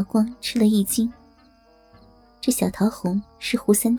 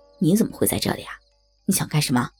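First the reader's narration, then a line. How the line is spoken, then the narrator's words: Soft woman's voice. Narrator (Chinese): 那女子轻声说道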